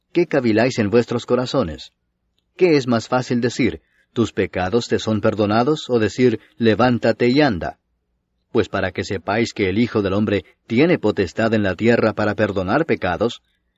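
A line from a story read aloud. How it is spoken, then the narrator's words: Plain. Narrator (Spanish): dijo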